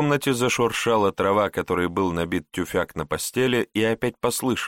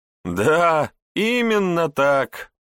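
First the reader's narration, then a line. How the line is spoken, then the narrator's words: Group laughing loudly. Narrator (Russian): расхохотались дворяне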